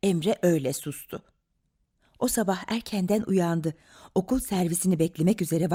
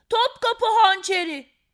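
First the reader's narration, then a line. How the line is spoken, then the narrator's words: Child shouting. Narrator (Turkish): diye bağırdı çocuklardan biri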